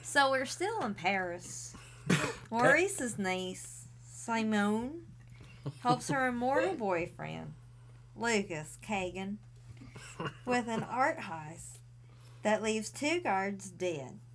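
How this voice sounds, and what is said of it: Put-on West Virginia accent. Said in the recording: “In an accent, Scottish. Northern. ... She went West Virginia.”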